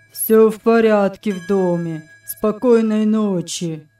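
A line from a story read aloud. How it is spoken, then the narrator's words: Monotone. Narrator (Russian): сказал монотонным голосом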